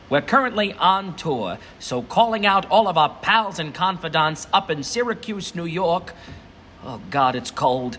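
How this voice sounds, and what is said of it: Drag performer's Sophia character voice. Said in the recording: “It's me, the token Sophia of the Golden Gays, that hilarious drag trio troupe that impersonate the Golden Girls”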